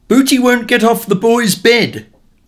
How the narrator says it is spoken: my mother would shout from the bedroom door

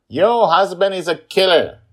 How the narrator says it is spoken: Joy shouts at Angela

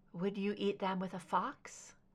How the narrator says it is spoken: Scully said softly

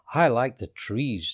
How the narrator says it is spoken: said Monkey

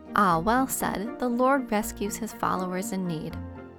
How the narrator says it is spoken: he replied calmly

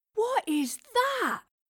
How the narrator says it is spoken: Thomas gasped in wonder

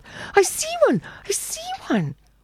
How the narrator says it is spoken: cried the ugly child

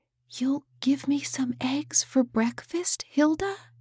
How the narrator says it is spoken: whispered Lily

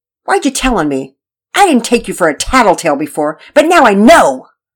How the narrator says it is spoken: Nora said angrily

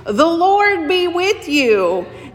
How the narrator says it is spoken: hollering

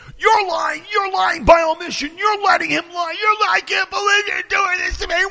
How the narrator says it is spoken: He's screaming at the guy's girlfriend

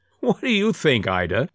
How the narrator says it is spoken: said, with a hearty laugh at the recollection

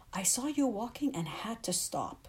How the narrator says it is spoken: exclaimed

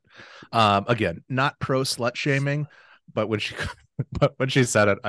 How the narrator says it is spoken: I laughed

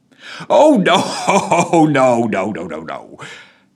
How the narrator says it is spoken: laughed the constable

